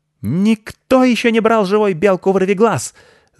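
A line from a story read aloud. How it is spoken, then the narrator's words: Shrieking. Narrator (Russian): завопила она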